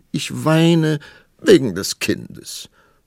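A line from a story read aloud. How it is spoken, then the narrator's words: Sobbing queen. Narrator (German): schluchzte die Königin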